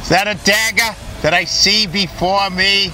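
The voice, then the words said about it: Exaggerated Boston accent. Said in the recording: “that horrible Boston accent”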